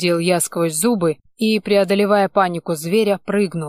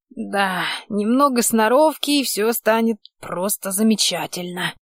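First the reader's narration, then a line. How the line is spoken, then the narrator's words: Creaky voice. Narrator (Russian): проскрипел он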